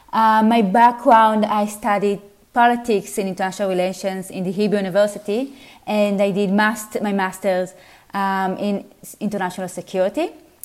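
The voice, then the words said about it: Israeli accent. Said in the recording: “I'm originally from Israel, as you can see from my accent.”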